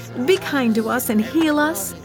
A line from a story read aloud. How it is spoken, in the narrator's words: they begged